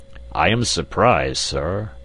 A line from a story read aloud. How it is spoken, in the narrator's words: boomed Challenger